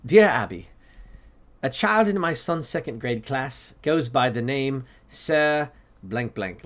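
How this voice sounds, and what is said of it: Put-on English accent. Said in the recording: “I'm going to try to do in an English accent because it feels English to me”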